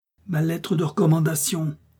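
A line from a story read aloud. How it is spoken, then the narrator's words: Cried out. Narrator (French): s'écria D'Artagnan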